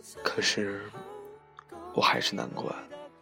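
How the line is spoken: Murmuring. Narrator (Chinese): 喃喃道

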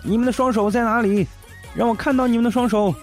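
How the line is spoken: Shouting. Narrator (Chinese): 这奇葩还在那喊

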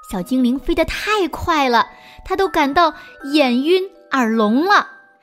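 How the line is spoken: Stammering. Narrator (Chinese): 国王结结巴巴地说

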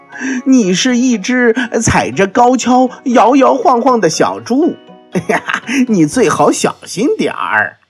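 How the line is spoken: Laughing loudly. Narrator (Chinese): 斑马大笑着说

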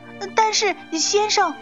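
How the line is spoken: Loud. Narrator (Chinese): 杨副市长大声说

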